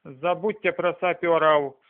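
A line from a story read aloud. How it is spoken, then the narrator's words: Plain. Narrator (Russian): сказала Нила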